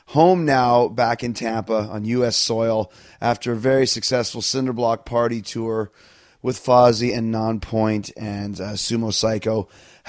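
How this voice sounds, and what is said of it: Raspy, slightly sick-sounding voice. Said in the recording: “can hear it in my voice, a little bit raspy, a little bit sick”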